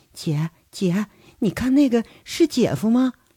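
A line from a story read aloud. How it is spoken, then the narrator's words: Soft voice. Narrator (Chinese): 轻声说着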